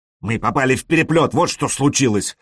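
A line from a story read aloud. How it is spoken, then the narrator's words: Angry. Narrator (Russian): сказал Элис сердито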